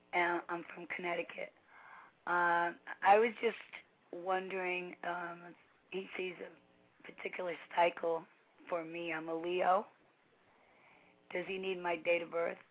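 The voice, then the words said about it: Sick, strained voice. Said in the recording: “You have to excuse my voice. I'm a little sick.”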